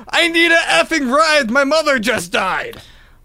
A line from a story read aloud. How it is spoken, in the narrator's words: Marcus became aggressive and began yelling